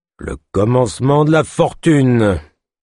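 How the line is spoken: Sneering laugh. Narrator (French): ricana-t-il

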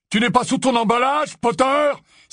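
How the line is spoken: Exclaimed. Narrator (French): s'écria le mange-mort qui avait essayé de jeter le sortilège

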